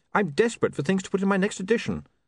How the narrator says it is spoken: said William desperately

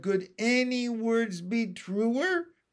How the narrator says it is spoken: Miss Spider clapped and cheered and cried

